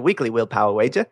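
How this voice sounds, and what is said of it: Mangled put-on Australian accent. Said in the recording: “I could try doing an Australian accent. ... English or so something. Something mangled. ... That's the other Australia, maybe.”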